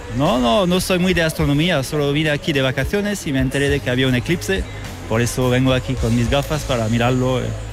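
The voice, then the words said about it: Foreign accent in Spanish. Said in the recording (Spanish): “por tu acento yo creo que de Madrid no eres”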